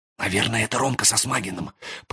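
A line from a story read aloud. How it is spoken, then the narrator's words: Whispered. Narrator (Russian): прошептала Юлька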